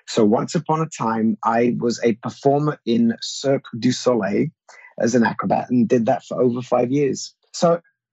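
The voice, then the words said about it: British accent. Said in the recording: “with a British accent”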